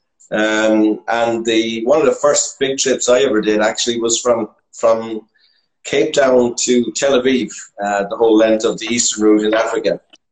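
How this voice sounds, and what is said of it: Slight Irish Midlands accent. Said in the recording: “I'm from the Midlands of Ireland, as might be possibly detectable by my accent. Just a slight hint of an Irish accent”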